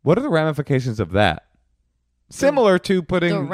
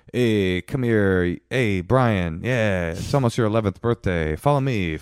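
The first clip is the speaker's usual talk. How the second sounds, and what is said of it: Mock creepy Catholic priest voice. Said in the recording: “an impression of a Catholic would be like”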